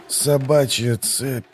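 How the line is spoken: Dark heavy grumble. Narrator (Russian): проворчал моряк голосом темным и тяжелым, как воздух в трюме

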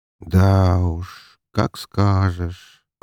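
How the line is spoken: Drawn-out drawl. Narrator (Russian): протянул я

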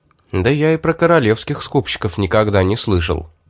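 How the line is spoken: Plain. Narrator (Russian): сказал я

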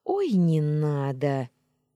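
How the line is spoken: Incredulous snort. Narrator (Russian): недоверчиво фыркнула я

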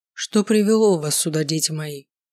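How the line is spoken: Low velvety voice. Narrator (Russian): спросил он низким бархатистым голосом

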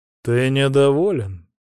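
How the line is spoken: Icy question. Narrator (Russian): ледяным голосом спросил царь

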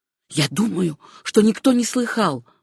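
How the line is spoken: Whispered at last. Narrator (Russian): прошептал он наконец

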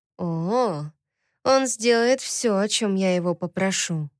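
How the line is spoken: Whisper. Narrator (Russian): прошептала Лами

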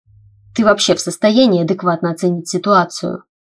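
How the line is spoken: Hissing question. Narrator (Russian): с шипением в голосе спросил меня Тайлер

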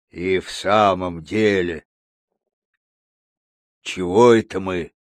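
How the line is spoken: Puzzled growl. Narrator (Russian): недоуменно прорычал гризли

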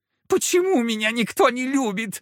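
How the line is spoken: Whining. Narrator (Russian): заскулил Фока

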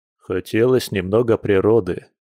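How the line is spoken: Embarrassed snort. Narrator (Russian): смущенно хмыкнул мужчина

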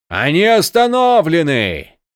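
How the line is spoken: Shout. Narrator (Russian): кричал Крас

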